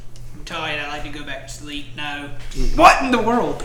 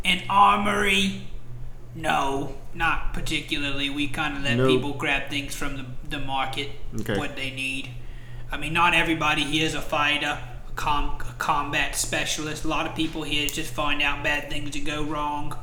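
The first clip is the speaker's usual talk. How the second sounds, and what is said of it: Slipping into a Cockney accent. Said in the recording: “Cockney. ... Little accent change there.”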